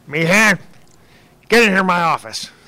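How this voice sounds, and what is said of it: Deliberately bad impersonation of a boss. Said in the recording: “I'm going to do a terrible Scott Kramer impersonation. ... That's about what it sounded like sometimes.”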